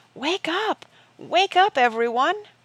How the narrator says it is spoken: he shouted with all his might

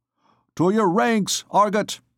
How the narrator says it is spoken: he cried

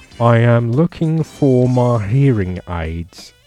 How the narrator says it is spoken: slurred the male

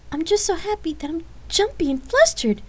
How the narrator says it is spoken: Lark exclaimed animatedly

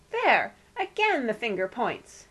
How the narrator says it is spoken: cried Aunt Celia

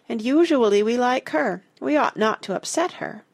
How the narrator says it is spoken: said Missy sadly

